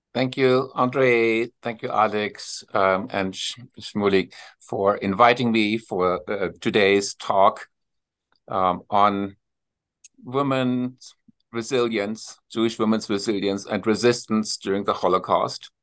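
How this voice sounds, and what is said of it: German accent. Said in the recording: “you probably detect my accent right away ... My accent is a German accent.”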